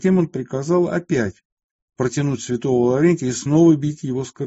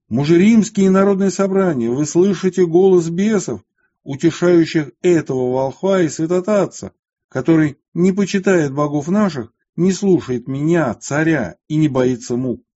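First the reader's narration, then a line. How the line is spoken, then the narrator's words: Furious loud shout. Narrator (Russian): Деки же, придя в неистовство, громко закричал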